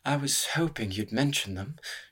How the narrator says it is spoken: she murmured

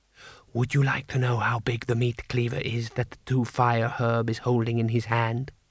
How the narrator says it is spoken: whispered Butterfly

